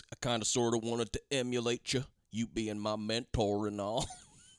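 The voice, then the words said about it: Faux southern accent. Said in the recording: “says it in like a faux southern accent”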